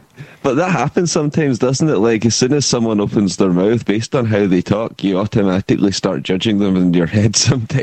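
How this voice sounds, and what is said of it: Glasgow Scottish accent. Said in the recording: “I've got a bit of a scumball Glasgow accent, to be honest.”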